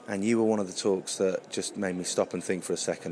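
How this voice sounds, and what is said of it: Hoarse, strained voice. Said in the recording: “As you can tell at the moment, I'm desperately losing my voice because I don't use it properly.”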